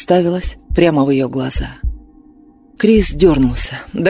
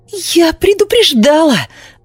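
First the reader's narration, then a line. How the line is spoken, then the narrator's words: Shrieking bride. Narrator (Russian): взвизгнула невеста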